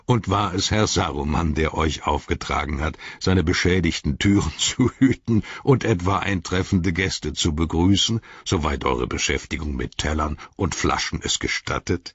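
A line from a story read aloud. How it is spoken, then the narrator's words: Laughing. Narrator (German): lachte Gandalf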